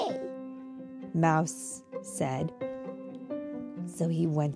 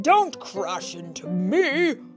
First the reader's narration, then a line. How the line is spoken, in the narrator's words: shouted Santa